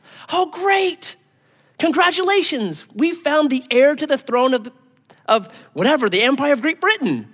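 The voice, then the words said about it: Put-on British accent. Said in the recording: “someone with a British accent.”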